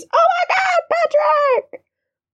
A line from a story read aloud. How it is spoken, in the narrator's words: Ryan literally screams